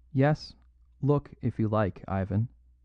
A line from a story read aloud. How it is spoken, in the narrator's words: said Valentin